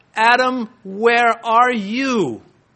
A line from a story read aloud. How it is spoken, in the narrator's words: God called out